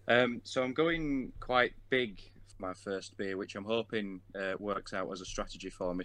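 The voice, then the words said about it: Speaks with a non-Canadian accent. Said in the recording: “albeit not a Canadian accent for you, but another accent on the podcast ... It's always good to hear another accent”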